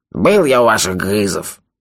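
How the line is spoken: Grumbling. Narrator (Russian): проворчал Анде

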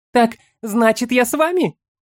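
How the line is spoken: Breathed out by a girl. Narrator (Russian): выдохнула девушка

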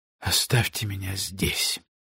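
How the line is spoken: Weakening voice. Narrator (Russian): произнес он слабеющим голосом

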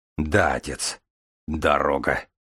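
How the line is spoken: Smirking grunt. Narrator (Russian): хмыкнул Железовский

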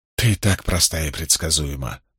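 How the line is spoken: Muttering. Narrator (Russian): пробормотала Магеддин

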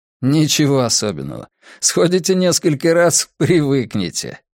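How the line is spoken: Laughing. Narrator (Russian): засмеялся Чуянь

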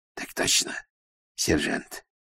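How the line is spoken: Whisper, fearful and furious. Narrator (Russian): прошептал Стук, белый от страха и ярости

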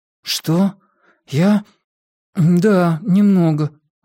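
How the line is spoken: Forced out, strained. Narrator (Russian): выдавил Уайлен

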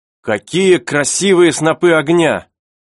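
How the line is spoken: Exclaiming. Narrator (Russian): воскликнул Герберт

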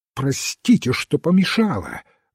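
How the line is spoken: Sharp, commanding exclamation. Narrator (Russian): воскликнула она так резко, словно приказывала, а не просила прощения

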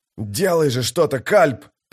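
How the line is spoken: Hoarse wheeze. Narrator (Russian): прохрипел Дукер

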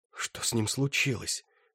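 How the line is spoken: Horrified whisper. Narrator (Russian): в ужасе прошептал Флорин

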